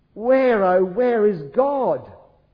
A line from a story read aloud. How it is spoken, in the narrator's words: His whole body trembled as he wailed into the nebulous night